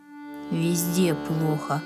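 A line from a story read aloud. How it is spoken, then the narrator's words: Plain. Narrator (Russian): ответил Ваня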